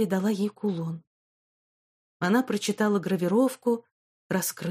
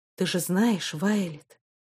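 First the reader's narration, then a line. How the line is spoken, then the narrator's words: Calm answer. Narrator (Russian): ответил спокойно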